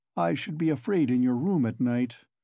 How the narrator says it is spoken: he observed gloomily

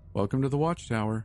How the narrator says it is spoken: Ainsley said

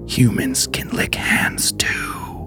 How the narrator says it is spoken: a man's voice whispers

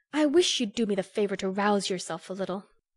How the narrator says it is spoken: she said sharply

